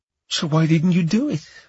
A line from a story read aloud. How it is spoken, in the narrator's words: Laura asked, her voice shaky